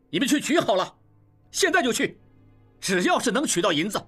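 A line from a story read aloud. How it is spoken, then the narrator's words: Loud. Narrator (Chinese): 应季也大声说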